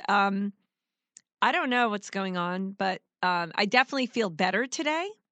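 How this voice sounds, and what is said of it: Sick-sounding, tired voice. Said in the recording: “I apologize for my voice. ... So a little tired”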